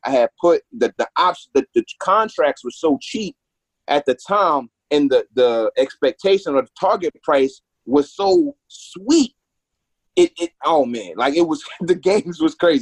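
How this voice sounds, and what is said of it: Choked-up, emotional voice. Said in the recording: “I got a little choked up”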